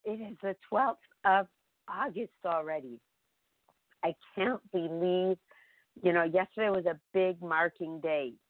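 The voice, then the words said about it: Hoarse, failing voice. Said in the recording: “Excuse me, my voice is going, but it'll come back”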